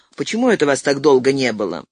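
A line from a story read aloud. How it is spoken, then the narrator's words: Angry. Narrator (Russian): Сакс сердито сказал лифтеру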